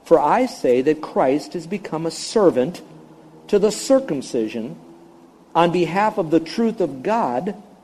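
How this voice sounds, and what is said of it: Slow, deliberate reading aloud. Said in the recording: “I'm going to read it slowly”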